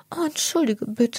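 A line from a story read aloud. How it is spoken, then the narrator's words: Anxious young girl. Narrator (German): sagt das Käfermädchen ängstlich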